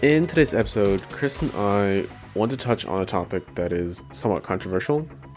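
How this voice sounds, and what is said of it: Slightly stuffy, congested voice. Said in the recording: “I sound a bit stuffy. ... I have allergies”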